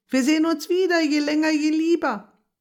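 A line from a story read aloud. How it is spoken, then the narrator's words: Called while rushing away. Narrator (German): Schon im Wegsausen rief sie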